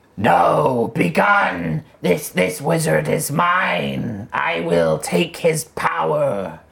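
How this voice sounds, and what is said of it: Raspy menacing character voice. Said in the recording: “you hear a raspy voice come from the tower within.”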